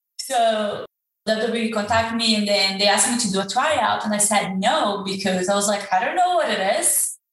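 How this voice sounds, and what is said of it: Speaks with a non-native accent. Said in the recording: “I don't know if my accent will help with this word”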